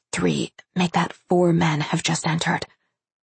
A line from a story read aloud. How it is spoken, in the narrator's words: She whispered